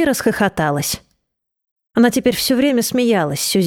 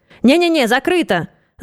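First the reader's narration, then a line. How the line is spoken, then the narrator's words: Shout. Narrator (Russian): закричал он посетителям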